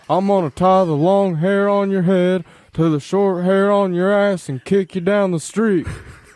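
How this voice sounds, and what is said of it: Hank Hill impression. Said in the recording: “Can you give us a Hank Hill?”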